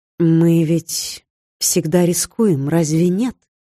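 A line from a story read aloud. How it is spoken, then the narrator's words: Plain. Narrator (Russian): спросила я Скандра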